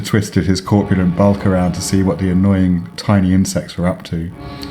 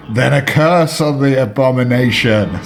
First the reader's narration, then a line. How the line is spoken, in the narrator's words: screamed Eldritch